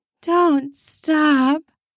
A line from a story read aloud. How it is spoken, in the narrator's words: she begged aloud between pants